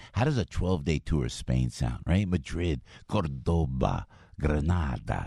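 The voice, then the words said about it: Put-on Spanish accent. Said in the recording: “You like my Spanish accent now?”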